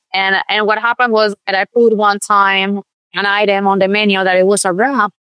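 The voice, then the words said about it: Accent that sounds Mexican. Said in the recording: “A lot of people also thought that I was Mexican because of my accent”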